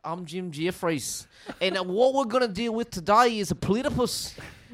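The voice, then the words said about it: Put-on Australian-New Zealand accent. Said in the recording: “I need the Jim Jefferies accent saying ... It's somewhere between Jim Jeffries and Steve Irwin. It's New Zealand.”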